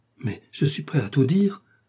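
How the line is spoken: Exclamation. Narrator (French): s'écria Bonacieux

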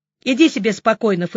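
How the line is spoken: Snorting. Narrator (Russian): фыркнула я

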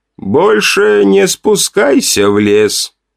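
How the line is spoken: Muffled voice. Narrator (Russian): глухо произнес он

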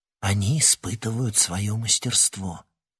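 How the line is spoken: Quiet explanation. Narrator (Russian): тихо пояснила Тесса

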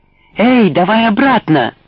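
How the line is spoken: Shout. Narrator (Russian): закричал

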